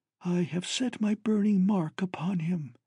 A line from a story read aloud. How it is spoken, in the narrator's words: Tenathiu spoke, a hissing whisper